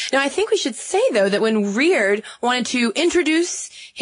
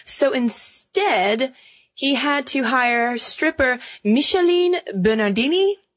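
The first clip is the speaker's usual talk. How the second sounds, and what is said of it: Poor put-on French accent. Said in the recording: “That's my terrible French accent.”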